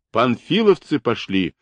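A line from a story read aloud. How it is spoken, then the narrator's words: Loud shout. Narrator (Russian): громко выкрикивает Байков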